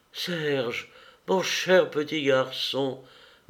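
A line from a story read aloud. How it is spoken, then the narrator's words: Tearful stammering. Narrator (French): balbutia-t-elle, étouffée par les larmes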